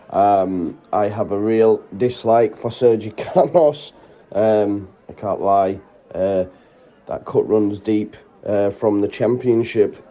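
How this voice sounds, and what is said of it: Hoarse, worn-out voice. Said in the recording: “My voice is still gone, not as buoyant as I was pre-match.”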